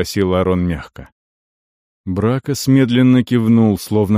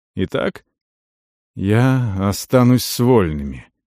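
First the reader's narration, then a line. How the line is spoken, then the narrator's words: Hoarse reply. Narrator (Russian): хрипло ответил тот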